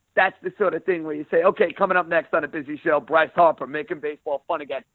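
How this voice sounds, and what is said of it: Pronounced New York accent. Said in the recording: “you have a pronounced New York accent, ... with such an accent?”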